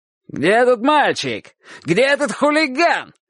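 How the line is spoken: Yelling. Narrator (Russian): орал он

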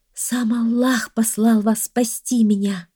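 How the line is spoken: Young woman's joyful exclamation. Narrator (Russian): радостно воскликнула девушка

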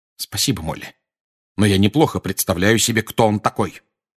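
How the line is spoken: Cold reply. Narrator (Russian): холодно ответил Сириус

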